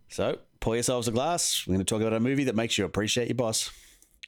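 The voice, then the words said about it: Noticeable regional accent. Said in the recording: “My accent's not that thick.”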